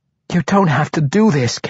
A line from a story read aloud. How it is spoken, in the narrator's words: Caddybri pleaded with her